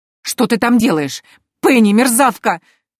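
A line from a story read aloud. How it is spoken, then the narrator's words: Muffled shriek from sack. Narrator (Russian): визжала Антария из импровизированного мешка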